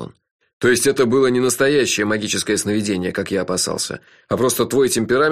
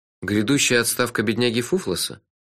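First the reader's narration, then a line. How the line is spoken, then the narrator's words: Gloomy question. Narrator (Russian): мрачно спросил я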